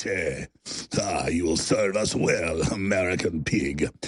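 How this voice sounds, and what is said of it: Eastern European accent impression of Gorka. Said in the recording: “talks like this. And there's nothing wrong with talking in a good Eastern European dialect. But this is how he talks.”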